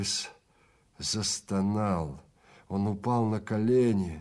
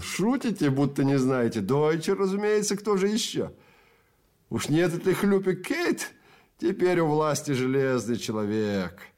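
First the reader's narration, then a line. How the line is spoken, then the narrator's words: Giggle. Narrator (Russian): Человек за конторкой хихикнул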